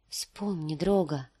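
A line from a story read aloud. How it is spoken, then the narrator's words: Whispering. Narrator (Russian): прошептала она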